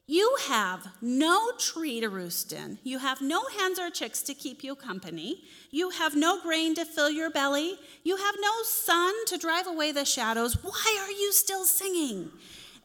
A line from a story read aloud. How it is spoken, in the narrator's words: he yelled at the rooster